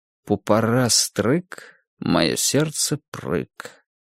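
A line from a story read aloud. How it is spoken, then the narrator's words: Mumbling. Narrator (Russian): пробормотал он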